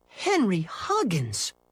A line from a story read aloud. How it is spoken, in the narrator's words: she exclaimed